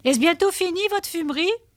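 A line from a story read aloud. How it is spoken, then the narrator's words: Shout. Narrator (French): je criai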